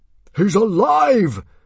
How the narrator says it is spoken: shouted out Stoic in triumph

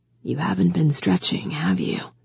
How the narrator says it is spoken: He whispered, low enough that the music from the stage covered it

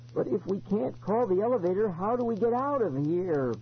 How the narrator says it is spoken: Ben whined

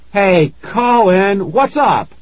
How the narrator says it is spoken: I shouted

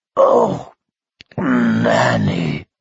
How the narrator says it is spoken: he groaned

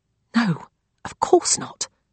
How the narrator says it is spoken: Rose whispers back

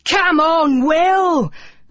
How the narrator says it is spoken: cried the boys

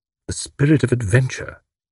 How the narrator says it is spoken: murmured Tuppence

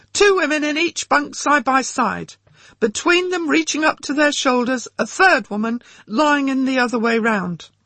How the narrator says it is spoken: One of them began shouting from the centre of the hut

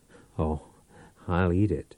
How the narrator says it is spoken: Powell chuckled

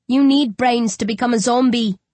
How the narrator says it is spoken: I sneer

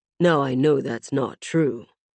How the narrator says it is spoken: Rami murmured

